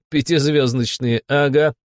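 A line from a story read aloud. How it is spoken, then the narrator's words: Chuckling. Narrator (Russian): хохотнула Таня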